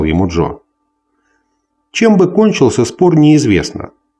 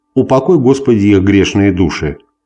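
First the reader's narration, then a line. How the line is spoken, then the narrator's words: Solemn pronouncement. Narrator (Russian): торжественно произнес Фриско Кит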